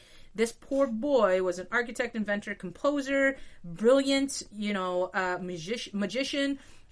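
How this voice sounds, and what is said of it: Put-on French accent. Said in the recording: “Going with the French accent.”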